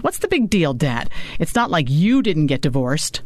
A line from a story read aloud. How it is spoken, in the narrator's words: Maddie snapped